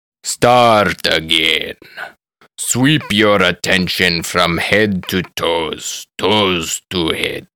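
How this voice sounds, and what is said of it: Old man, thick Indian accent. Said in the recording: “an old Indian man with a thick accent”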